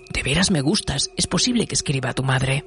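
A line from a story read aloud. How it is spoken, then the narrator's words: Whispered retelling. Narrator (Spanish): susurró Frau Lenlisa, me dijo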